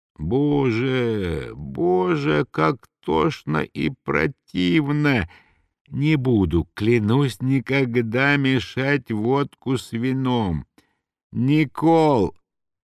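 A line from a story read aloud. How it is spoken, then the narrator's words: Hoarse, sinking groan. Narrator (Russian): хрипел Мышлаевский, оседая к полу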